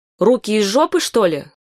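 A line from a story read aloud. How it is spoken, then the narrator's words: Shouting. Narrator (Russian): кричала мать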